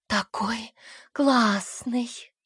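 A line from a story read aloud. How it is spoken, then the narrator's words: Mumbled. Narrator (Russian): пробормотала Окси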